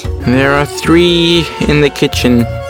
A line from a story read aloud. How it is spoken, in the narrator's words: replied Karim rather sadly